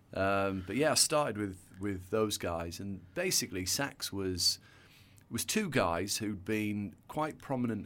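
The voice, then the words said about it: Northern English accent. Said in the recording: “You can probably tell by my accent, I grew up in the north of England.”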